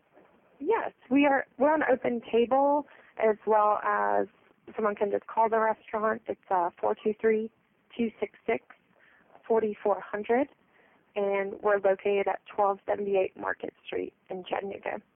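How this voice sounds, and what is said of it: Tennessee Southern accent. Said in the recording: “You do have an accent. You are Tennessee. ... I hear the accent there.”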